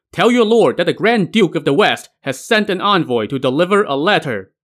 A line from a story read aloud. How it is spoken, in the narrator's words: the envoy ... shouted up to the top of the walls